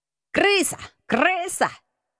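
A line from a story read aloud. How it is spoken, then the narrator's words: Several voices shouting. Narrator (Russian): закричало сразу несколько голосов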